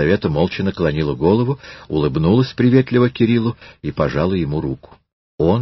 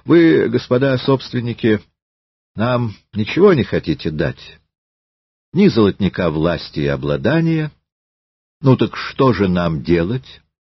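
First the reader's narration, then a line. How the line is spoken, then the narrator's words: Simple, calm answer. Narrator (Russian): Щемилов просто и спокойно ответил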